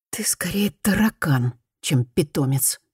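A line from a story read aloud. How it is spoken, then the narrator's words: Muttering. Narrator (Russian): пробормотала Фуми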